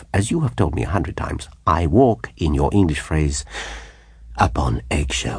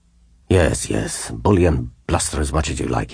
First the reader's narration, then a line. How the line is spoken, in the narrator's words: he said sulkily